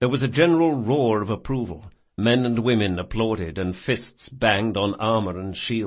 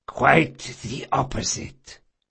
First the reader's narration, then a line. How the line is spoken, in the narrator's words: Barsavi whispered